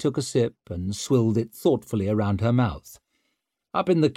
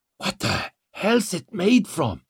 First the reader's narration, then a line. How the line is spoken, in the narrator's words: she croaked